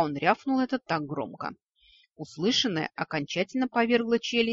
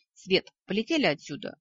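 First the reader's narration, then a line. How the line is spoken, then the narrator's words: Barked. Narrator (Russian): рявкнул Вик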